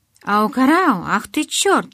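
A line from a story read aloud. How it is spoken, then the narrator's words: Crying out. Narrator (Russian): вскрикнул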